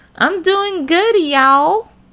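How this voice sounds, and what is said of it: Southern accent. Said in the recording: “Southern accent”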